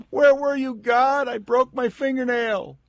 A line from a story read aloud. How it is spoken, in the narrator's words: We will scream